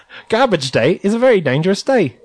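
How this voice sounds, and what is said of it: Put-on Australian cartoon character voice. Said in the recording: “what was your Australian accent? ... That's really just my Rocko voice. But in my head, it sounds perfect.”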